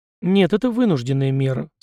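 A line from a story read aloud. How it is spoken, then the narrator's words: Calm reply. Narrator (Russian): спокойно ответил Никита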